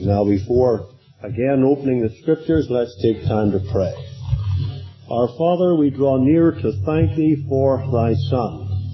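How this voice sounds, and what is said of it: Hoarse, slightly rough voice. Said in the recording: “I have a little frog in my throat tonight”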